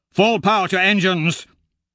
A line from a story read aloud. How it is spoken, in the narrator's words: I roar